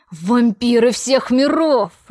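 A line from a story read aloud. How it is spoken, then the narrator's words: Growling. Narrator (Russian): рычал он на меня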